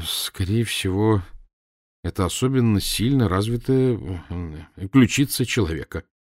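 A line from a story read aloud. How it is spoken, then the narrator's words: Mumbled. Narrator (Russian): промямлил я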